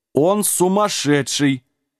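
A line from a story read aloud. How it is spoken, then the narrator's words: Giants' loud laughter. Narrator (Russian): расхохотались синие гиганты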